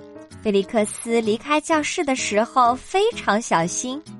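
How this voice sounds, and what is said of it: Usual voice. Nothing is said of it.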